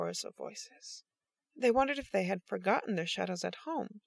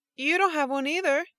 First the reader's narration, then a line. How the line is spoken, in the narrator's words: Paul yelled back